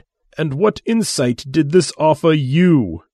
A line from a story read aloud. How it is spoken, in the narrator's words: He asked, with a tightly controlled voice